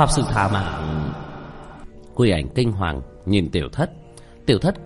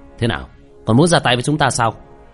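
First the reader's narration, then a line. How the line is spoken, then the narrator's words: Stern shout. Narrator (Vietnamese): Tiểu Thất nghiêm nghị quát lên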